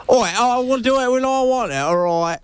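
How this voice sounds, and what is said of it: Put-on British geezer accent. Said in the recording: “your British accent ... Day in the life of a Brexit geezer”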